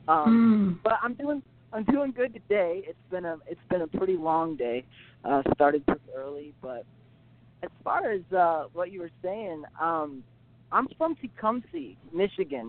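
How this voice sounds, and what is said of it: Slightly strained, worn-out voice. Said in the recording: “my voice is a little shot. That's why I was singing my heart out.”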